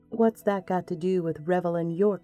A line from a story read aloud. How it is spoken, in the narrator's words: she asked